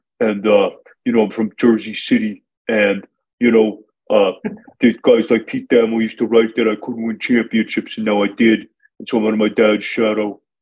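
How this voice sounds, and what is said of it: Imitates another person's voice. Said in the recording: “I do a pretty good Danny Hurley impression”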